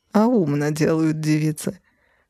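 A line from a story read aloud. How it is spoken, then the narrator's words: Muttering, suppressing laughter. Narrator (Russian): пробормотал Ирилий, явно с трудом сдерживаясь от смеха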